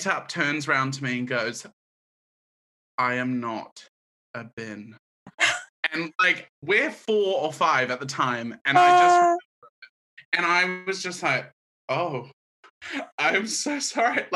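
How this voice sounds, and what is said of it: Mellow hybrid New Zealand accent. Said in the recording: “my accent isn't more South New Zealand ... It's actually a very mellow accent ... it's not a harsh New Zealand accent ... I've got a hybrid ... People do actually go, "Oh, are you American?”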